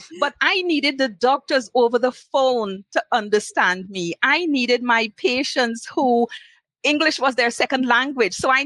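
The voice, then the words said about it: Trinidadian accent. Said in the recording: “they were unfamiliar with my accent. They had never worked with someone from Trinidad before... even though I have an accent, that is never going to change... I am proud of my accent”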